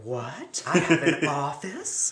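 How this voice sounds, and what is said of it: Imitates another person's voice. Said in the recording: “I like her impression of Melanie Griffith.”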